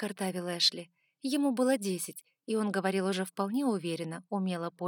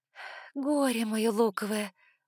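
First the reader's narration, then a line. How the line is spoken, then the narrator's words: Sigh. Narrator (Russian): вздохнула я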